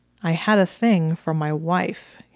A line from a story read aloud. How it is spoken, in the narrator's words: he said in a flat voice